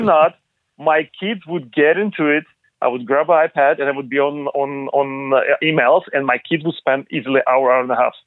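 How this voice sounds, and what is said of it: Non-native English accent. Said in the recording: “obviously you're not from here. We can tell just by by listening to your to your diction”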